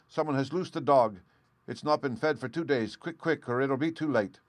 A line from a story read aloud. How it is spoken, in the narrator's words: cried